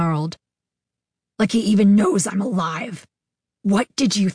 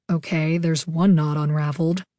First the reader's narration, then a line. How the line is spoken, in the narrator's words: Fang muttered under his breath